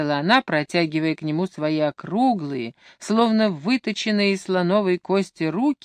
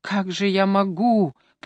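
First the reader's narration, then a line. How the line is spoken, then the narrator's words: Hoarse rasp. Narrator (Russian): прохрипел он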